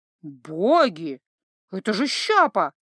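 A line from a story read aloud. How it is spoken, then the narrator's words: Shocked gasp. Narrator (Russian): Потрясенно выдохнул Златко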